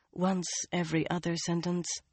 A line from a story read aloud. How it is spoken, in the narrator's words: she murmured